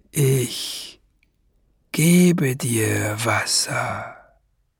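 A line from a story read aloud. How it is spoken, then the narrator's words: Breathy whisper. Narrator (German): hauchte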